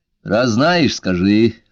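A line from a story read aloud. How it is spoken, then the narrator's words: Irritated insistence. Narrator (Russian): раздраженно настаивал Лео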